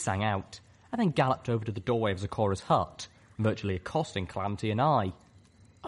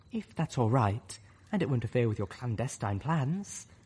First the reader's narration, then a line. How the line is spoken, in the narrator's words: Almost timidly, she added